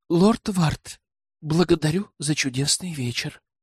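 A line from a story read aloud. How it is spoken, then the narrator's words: Female whisper. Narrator (Russian): прошептала она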